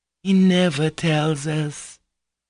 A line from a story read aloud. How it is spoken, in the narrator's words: lisped Maria Kondratyevna